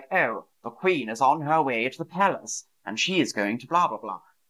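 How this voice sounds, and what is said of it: Old-fashioned 1950s British TV accent. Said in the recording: “If you watch British TV from the 1950s, the way they speak is really, really different”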